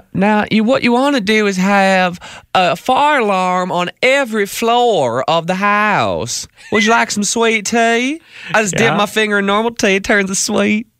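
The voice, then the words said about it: Southern Belle accent. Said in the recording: “That was like the Southern Belle accent, right? ... She's from Georgia. ... Another American accent.”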